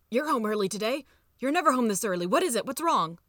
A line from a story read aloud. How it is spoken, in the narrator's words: gasping for breath, and say